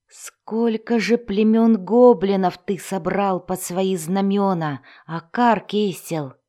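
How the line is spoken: Moaning. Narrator (Russian): простонал эльф

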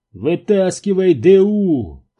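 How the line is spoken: Shout. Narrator (Russian): крикнул Зеро Керку

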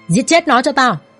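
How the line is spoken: Loud commanding shout. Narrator (Vietnamese): tên mặt sẹo hắn quát lớn ra lệnh

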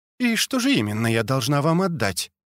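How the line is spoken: Calm question. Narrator (Russian): спокойно спросила женщина

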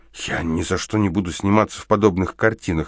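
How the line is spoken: Breathless exhale. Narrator (Russian): выдохнула она

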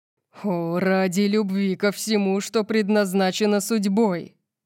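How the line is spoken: Growl. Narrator (Russian): прорычал он

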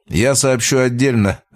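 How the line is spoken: Laughing. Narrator (Russian): рассмеялся

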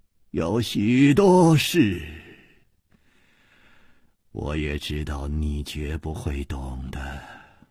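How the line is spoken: Calm sighing. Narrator (Chinese): 也不生气，竟又叹息了一声

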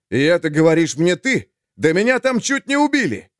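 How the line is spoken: Exhausted desperate shout. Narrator (Russian): Только что умиравший от истощения Олег нашел силы, чтобы закричать

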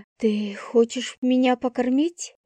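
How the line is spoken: Breathless. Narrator (Russian): выдохнула я

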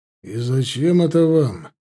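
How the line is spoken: Gloomy question. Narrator (Russian): мрачно спросил Таран

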